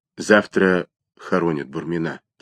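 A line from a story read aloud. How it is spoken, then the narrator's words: Quiet. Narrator (Russian): тихо сказал Чернов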